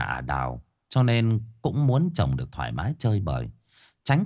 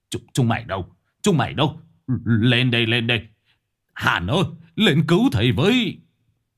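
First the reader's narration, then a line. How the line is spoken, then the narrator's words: Panicked scream. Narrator (Vietnamese): tiếng hét thất thanh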